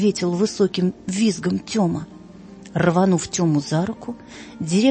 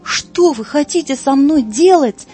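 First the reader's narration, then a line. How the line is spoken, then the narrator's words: Frantic scream. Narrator (Russian): неистово закричал Тёма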